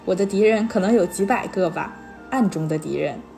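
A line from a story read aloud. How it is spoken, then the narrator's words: Laughing. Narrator (Chinese): 他就笑了，说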